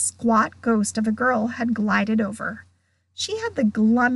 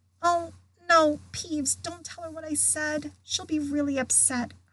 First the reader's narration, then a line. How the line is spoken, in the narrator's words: Hermione whispered frantically